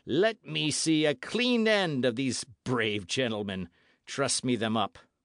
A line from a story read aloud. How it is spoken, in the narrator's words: he continued in the same sneering and cruel tones